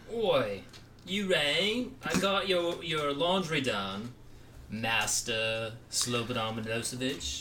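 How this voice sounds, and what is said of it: Put-on British butler accent. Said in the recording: “That's a good British accent. ... Yeah, it's not bad.”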